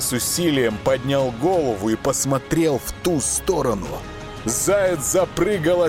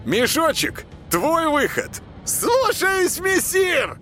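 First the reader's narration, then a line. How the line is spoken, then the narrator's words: Thin shrill chanting. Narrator (Russian): отозвался тонкий визгливый голос и нараспев начал декламировать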